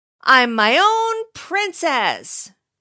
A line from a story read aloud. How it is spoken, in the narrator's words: she shouted into the courtyard below